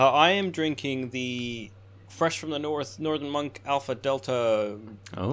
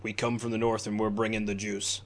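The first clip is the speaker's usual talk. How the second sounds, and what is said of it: Tough-guy northern accent. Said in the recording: “It's very good northern accent ... that's my tough guy voice”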